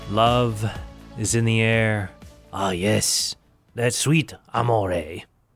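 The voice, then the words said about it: Mixed French and Italian put-on accent. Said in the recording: “I was doing a French accent and Italian there at the same time”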